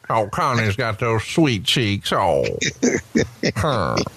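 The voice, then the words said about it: Imitates another person's voice. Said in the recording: “In his Jim Barnett voice.”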